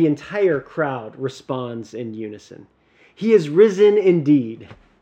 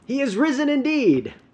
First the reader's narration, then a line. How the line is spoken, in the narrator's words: you just shout back at the TV